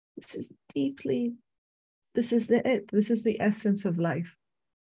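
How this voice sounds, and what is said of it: Tearful, emotional voice. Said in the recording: “you see probably tears in my eyes and hear it in my voice.”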